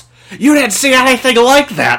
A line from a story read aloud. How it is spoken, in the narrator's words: he randomly just shouts